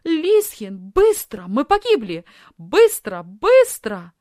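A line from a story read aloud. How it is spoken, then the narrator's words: Shout. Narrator (Russian): закричала Софи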